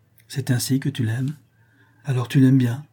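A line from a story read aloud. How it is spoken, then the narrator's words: Sighing. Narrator (French): reprit-elle en soupirant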